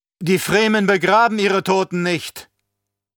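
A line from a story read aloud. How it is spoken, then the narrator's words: Man calling out. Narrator (German): rief der Mann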